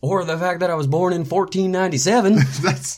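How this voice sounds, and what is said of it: Put-on southern accent. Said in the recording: “Don't know why I'm talking with a southern accent”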